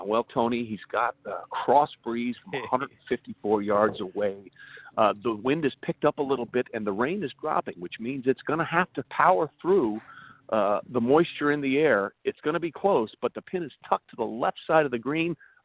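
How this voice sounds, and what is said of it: Jim Nantz golf announcer impression. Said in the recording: “your best Jim Nantz impersonation”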